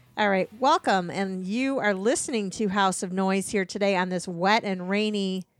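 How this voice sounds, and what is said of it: Announcer-style radio voice. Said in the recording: “You go full radio ... I'm going to talk in my radio voice”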